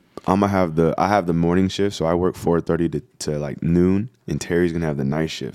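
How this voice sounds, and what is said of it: Tired, fatigued voice. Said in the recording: “the fatigue that you're gonna hear this episode from my voice”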